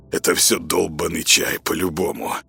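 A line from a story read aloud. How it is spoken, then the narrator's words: Hoarse smirk. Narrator (Russian): хрипло усмехнулся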